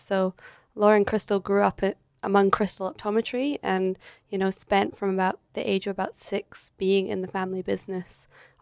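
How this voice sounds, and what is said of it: Scottish accent. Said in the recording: “you can probably tell by the accent, I'm not native to Australia. So I'm originally from Scotland. So I grew up in Edinburgh”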